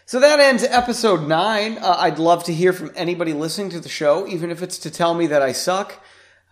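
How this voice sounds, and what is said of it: Raspy voice. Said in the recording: “This podcast was a little raspy today, and it was brought to you by sinus infections.”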